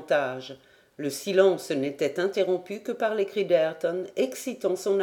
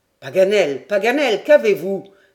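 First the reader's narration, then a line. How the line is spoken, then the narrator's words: Crying out. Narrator (French): s'écria Glenarvan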